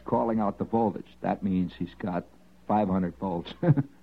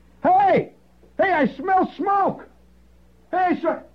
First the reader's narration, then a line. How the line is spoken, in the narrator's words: a high-pitched scream that echoed throughout the entire jungle, a tremendous scream